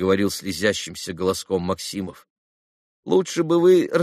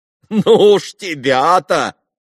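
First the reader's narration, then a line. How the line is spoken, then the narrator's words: Reluctant laugh. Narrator (Russian): рассмеялась нехотя Грушенька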